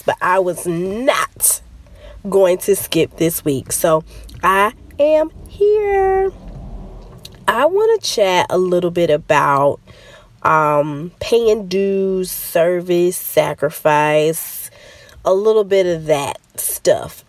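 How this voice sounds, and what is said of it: Congested, stuffed-up voice. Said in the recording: “Pardon my voice. I don't know if this is allergies or a baby cold or what is going on, but I'm a little stopped up.”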